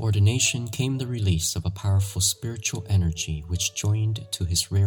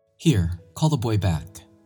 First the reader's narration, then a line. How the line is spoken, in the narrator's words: cried Don Bosco